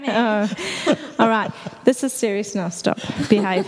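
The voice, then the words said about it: Stern teacher voice. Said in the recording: “It's my teacher voice there.”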